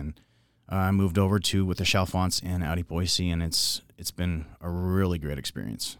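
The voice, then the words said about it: Smooth, pleasant radio-style voice. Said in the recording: “your radio voice is top notch ... You're easy to listen to ... you have a very ingratiating voice”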